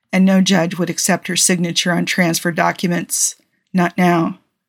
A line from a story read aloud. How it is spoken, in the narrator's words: he explained softly